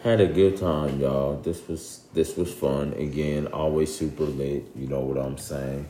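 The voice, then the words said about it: Flat monotone voice. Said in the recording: “In my monotone voice today. ... But I always have a monotone voice.”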